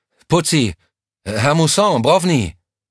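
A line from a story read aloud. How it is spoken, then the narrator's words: Calling ever louder. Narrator (German): Immer lauter rief er ihre Namen in das Nichts hinein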